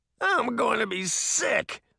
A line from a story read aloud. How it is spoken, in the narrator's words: he cried